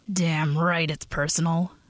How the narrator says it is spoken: Ben rumbled, his voice like rocks grinding

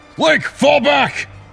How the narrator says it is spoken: Toru shouted from somewhere behind him

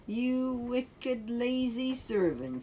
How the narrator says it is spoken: said the master

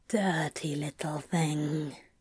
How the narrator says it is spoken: Crowley whispered appreciatively

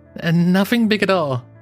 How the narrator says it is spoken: he laughed

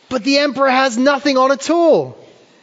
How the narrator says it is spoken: a child blurts out

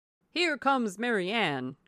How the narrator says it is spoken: cried Sir John

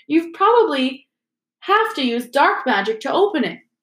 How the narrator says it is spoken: piped up Parvati Patil

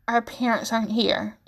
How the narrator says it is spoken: he croaks out instead

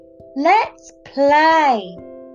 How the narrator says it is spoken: cried Ollie

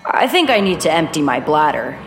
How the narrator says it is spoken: said

